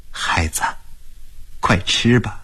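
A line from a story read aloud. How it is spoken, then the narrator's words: Gentle coaxing. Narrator (Chinese): 马尔塔大婶才轻声地劝他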